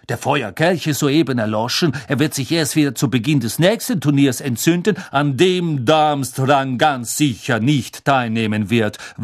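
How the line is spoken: Angry interjection. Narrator (German): warf Karkaroff zornig ein

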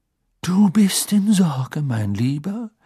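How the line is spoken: Grief-laden voice. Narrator (German): sagte sie mit trauerschwerer Stimme zu Harry

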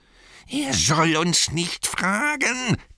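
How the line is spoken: Shrieking. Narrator (German): kreischte Gollum

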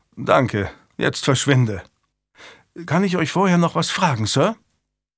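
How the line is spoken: Sighing. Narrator (German): Julian seufzte

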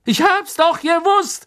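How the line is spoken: Gleeful shout. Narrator (German): rief Stan schadenfroh

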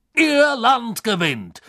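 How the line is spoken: Surprised call. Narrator (German): rief Backman, der offenbar wie die Iren vom plötzlichen Ende des Spiels überrascht worden war

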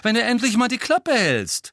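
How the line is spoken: Loud interjection. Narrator (German): warf Ron laut ein

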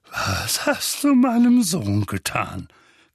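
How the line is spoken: Threatening growl. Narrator (German): knurrte drohend

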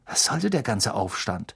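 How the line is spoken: Murmur. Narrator (German): murmelte er Harry zu

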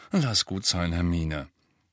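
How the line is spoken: Mumble. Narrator (German): Ron murmelte

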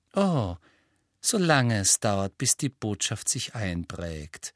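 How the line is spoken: Sugary sweet voice. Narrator (German): sagte Umbridge mit ihrer süßlichen Stimme

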